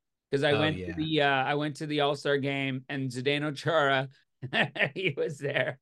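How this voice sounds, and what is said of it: Usual voice. Nothing is said of it.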